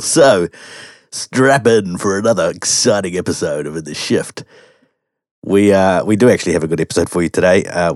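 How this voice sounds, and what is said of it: Voice deeper than normal. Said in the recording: “after recent bouts of COVID and flu and all sorts of things going on in our house, my voice is deeper than normal ... My radio voice is alive and well”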